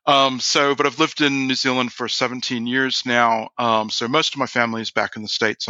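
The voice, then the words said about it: American accent with slight Kiwi sound. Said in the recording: “as you can tell by my accent, I'm not originally from New Zealand, although when I do go back to the States, everybody always says, oh my God, you sound like a Kiwi.”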